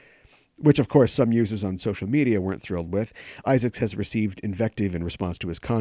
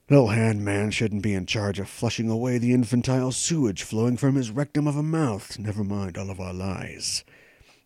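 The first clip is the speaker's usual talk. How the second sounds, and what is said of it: Jason Isaacs impression, tight-jawed accent. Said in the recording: “Should I do the accent? Let's do it. Although he's American in the show. He's still like tight lip on tight jaw like this.”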